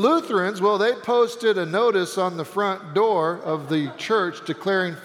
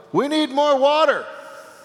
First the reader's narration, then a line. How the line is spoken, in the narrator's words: The Baptist yelled